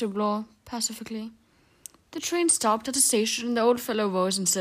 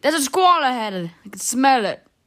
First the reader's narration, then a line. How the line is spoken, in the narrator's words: The old man said angrily